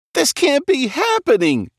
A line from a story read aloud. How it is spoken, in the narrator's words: cried